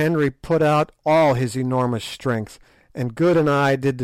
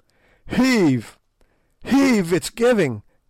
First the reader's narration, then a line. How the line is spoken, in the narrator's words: gasped Sir Henry